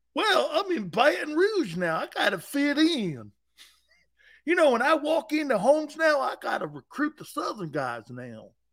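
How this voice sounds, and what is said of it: Put-on Southern hillbilly accent. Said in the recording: “you sound like a hillbilly”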